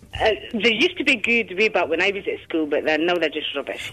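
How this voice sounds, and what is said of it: Aberdeen Scottish accent. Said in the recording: “It's the accent ... if I'm speaking Aberdeenian”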